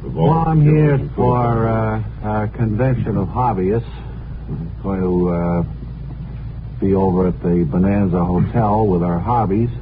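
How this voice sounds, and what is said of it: New England accent. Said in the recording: “that New England accent”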